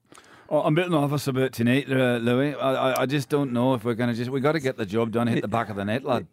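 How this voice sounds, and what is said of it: Impression of Dylan McGowan. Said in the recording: “Hit us with the accent. ... I was Dylan McGowan.”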